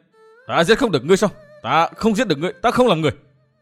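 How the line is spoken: Furious shout. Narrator (Vietnamese): Dương Viễn quá uất khí hét lên

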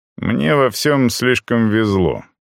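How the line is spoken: Plain. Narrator (Russian): сказал я

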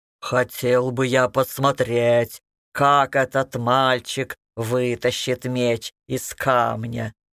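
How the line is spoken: Loud laughing again. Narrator (Russian): Горыныч вновь захохотал

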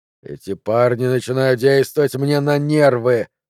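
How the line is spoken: Grumbled. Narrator (Russian): буркнул он

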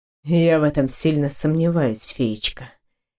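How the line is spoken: Quiet with a sigh. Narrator (Russian): тихо проговорил он, вздохнув

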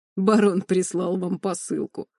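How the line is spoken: Bald man laughing. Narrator (Russian): снова рассмеялся лысый

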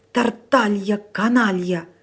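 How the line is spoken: Old man hissing. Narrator (Russian): зашипел на него старик

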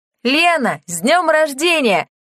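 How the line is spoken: Several voices shouting together. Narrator (Russian): выкрикнули Анна-Мария и еще несколько других пришедших заранее циркачей

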